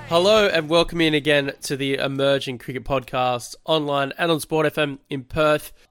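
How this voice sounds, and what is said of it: Hoarse voice. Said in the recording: “I am sounding a little bit hoarse ... A little bit under the weather this week”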